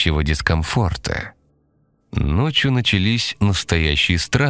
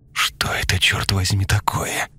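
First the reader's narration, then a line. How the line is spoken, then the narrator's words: Whispered. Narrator (Russian): прошептала Лена, ее лицо было белее мела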